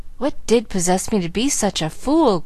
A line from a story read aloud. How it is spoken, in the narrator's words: groaned Frank, repenting, all too late, of yielding to the temptation which assailed him